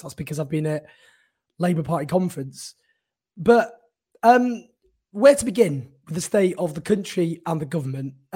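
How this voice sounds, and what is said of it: Hoarse, strained voice. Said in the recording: “lost my voice. As you can see, I'm sounding quite hoarse.”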